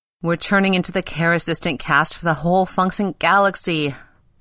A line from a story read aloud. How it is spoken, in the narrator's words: moaned Pele